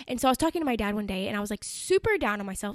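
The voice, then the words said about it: Talking very fast. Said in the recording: “I'm talking really fast”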